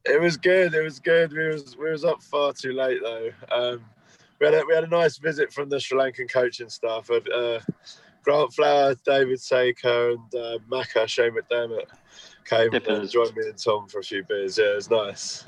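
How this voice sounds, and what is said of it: Croaky, worn-out voice. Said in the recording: “that is croaky ... I'm really hungover, though ... My voice is gone.”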